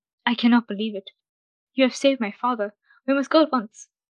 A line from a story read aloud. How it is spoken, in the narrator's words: the vizier's son exclaimed